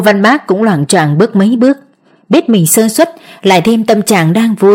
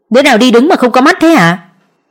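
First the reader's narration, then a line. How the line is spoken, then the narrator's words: Loud angry shout. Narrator (Vietnamese): Chàng quát lớn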